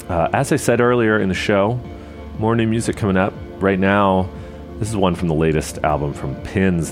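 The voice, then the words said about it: Congested, extra-deep voice. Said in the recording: “It has wreaked a little bit of havoc on my sinuses, as you can probably hear, but that probably just makes my DJ voice even deeper”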